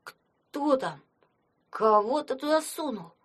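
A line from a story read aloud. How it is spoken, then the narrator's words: Astonished exhale. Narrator (Russian): Пораженно выдохнул Фома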